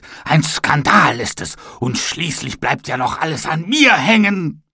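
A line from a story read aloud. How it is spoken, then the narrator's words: Shouted angrily. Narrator (German): schrie er wütend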